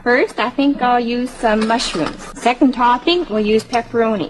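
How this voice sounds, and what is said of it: Minnesota-like Upper Midwest accent. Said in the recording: “her accent, she's got to be from Manitoba because she sounds almost like Minnesota ... There's a little bit of Minnesota an accent there”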